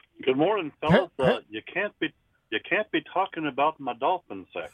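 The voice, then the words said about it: Hank Hill impression. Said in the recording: “Great imitation. ... I had to dust off the Hank Hill.”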